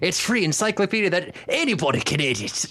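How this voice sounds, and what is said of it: Shifting Scottish to Kiwi accent. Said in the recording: “You did about four different accents then... In one sentence, it started off Scottish, ended up with, like, Kiwi.”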